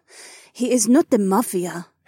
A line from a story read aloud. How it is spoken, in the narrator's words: Heiwan sighed